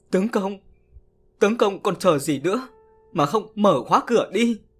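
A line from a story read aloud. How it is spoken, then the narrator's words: Whimpering question. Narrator (Vietnamese): Bà mếu máo hỏi chồng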